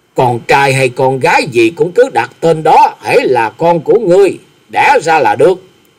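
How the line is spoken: Fierce menacing old man shouting. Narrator (Vietnamese): Mặt mày của lão lập tức âm trầm như quỷ sứ, hung hãn rồi quát lớn

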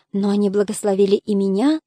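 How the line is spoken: Soft question. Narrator (Russian): спросила мягко

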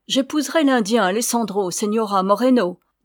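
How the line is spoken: Defiant, insolent. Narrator (French): dit-elle d'un ton de défi presque aussi insolent que celui de la Signora elle-même

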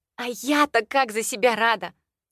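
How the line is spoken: Excited breathless exhale. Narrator (Russian): взволнованно выдохнула

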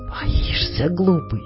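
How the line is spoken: Gentle unmocking whisper. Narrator (Russian): шепнула она, но не обидно совсем, не насмешливо

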